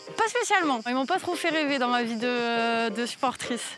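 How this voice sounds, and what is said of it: Slight Toulouse French accent. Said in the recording (French): “Il y a un petit accent là ... Toulouse, de Toulouse ... l'accent de Toulouse”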